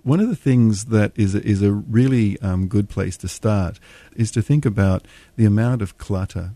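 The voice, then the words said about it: Australian accent. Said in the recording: “the Grinch with an Australian accent”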